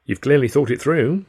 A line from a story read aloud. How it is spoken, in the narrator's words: I said